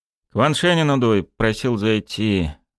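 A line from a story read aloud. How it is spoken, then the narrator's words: Gloomy announcement. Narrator (Russian): мрачно объявил Чекалин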